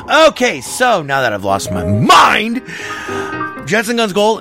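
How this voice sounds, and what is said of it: Usual voice. Nothing is said of it.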